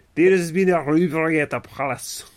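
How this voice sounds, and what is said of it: Poor put-on Scottish accent. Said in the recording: “That's not a Scottish accent. ... Right. That was bad. ... Think of Shrek. ... It's pretty bad still. ... It's pretty bad.”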